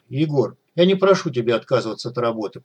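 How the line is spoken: Cold. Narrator (Russian): проговорил он холодно

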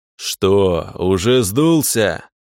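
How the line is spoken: Roaring. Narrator (Russian): Гнев взревел

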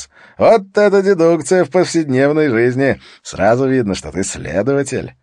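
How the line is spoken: Forced laugh. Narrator (Russian): Харри натянуто рассмеялся вместе с ним

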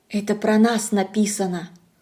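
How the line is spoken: Whisper. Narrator (Russian): Аня шепнула

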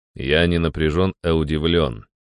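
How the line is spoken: Calm. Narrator (Russian): ответил я спокойно

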